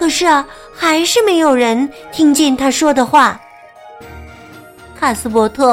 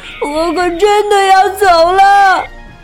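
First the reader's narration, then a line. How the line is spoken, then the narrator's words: Crying out. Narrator (Chinese): 他哭喊着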